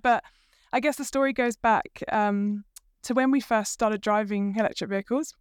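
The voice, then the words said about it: British accent. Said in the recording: “you'll tell straight away from my accent, I'm not actually from New Zealand originally. I'm from the UK”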